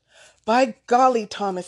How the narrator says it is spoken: shouted

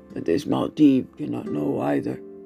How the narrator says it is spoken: the taller companion added in a cold voice

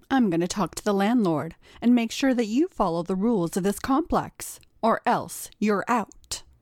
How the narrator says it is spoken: Monica said sternly

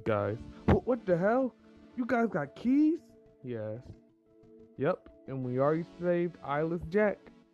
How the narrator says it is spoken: he said happily

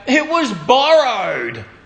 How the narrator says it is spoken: he cried out

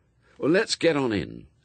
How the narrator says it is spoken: said Crowley

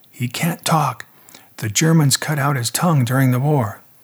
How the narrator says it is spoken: Ruth grabbed my arm discreetly and whispered

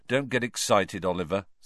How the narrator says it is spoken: said Harry gloomily

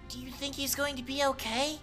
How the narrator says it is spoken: Mori asked anxiously

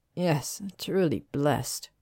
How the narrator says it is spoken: Theo said dryly

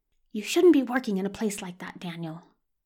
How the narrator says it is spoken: whispers past the hymnal

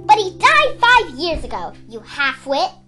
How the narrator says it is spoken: Danaid snapped

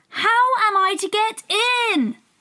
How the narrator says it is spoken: Alice asked, in a louder tone

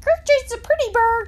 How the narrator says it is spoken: screamed Gertrude

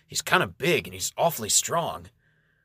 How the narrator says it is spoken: Enganyan gasps for air and mutters

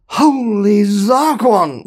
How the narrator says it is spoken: muttered Zaphod

